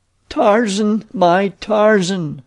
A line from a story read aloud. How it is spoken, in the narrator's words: she moaned